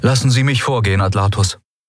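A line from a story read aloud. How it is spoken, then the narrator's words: Plain. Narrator (German): sagte sein Begleiter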